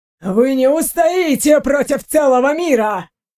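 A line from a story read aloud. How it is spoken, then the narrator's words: Indignant scientist shouting. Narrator (Russian): выкрикнул возмущенный ученый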